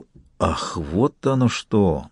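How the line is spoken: Hoarse strained voice. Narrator (Russian): Барон севшим голосом сказал

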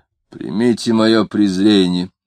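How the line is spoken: Gloomy voice. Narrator (Russian): мрачным голосом сказал Самгин

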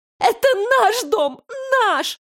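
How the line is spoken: Sobbing. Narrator (Russian): рыдала Алейна

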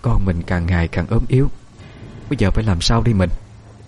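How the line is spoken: Tired mother sighing. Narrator (Vietnamese): Giọng mẹ đã thấm mệt, thở dài

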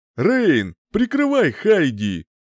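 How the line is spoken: Shout. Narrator (Russian): крикнул

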